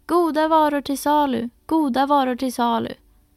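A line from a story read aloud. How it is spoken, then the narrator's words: Calling out. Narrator (Swedish): ropade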